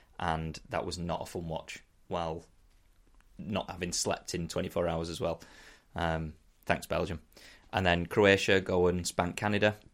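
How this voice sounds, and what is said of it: Sick, congested-sounding voice. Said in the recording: “as you can probably tell by my voice, full of flu”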